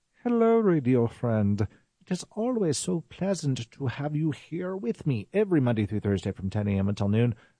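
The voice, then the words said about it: Put-on accent. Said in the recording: “I'm going to stop that accent.”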